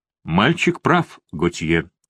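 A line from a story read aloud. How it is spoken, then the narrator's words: Plain. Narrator (Russian): сказал барон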